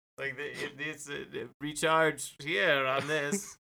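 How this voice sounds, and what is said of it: Robot voice with odd accent. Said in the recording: “robot voice has a weird accent”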